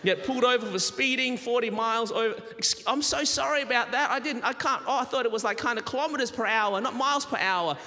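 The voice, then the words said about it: Australian accent. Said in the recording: “have I picked up the Southern accent? And I haven't. I'm holding on to my Australian accent”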